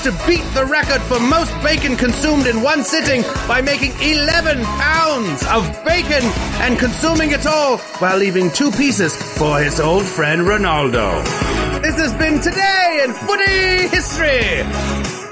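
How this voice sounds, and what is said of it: Put-on old English accent. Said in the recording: “Love the accent. ... And that old English accent. ... OLDE.”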